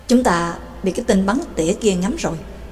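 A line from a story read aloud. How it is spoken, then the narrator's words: Quiet warning. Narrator (Vietnamese): Bà Tàng khẽ nói với Trắc Mộc Cường Ba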